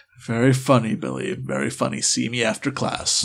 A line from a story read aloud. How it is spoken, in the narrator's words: And Professor Killian, he sighs and goes